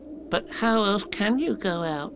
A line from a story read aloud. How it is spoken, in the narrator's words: asked Piglet anxiously